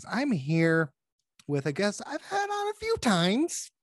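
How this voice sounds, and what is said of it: Silly put-on dumb voice. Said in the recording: “why are you doing a dumb voice? ... You're doing a dumb voice.”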